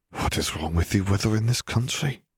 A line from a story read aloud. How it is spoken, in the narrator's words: Flair muttered